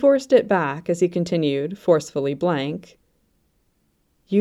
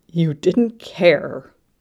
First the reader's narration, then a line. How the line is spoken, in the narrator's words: he said again, and was startled by the snarl in his voice